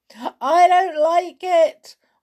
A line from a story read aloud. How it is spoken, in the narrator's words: wailed Sailor